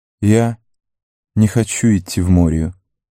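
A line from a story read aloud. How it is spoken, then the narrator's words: Clear voice. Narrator (Russian): ясным голосом произнес Леголас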